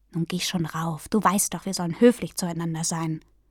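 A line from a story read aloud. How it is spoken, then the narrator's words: Said quietly. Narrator (German): sagte er leise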